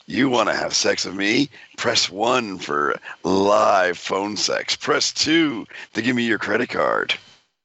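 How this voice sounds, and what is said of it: Sexy phone-sex line voice. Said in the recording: “I'm your sexy phone voice.”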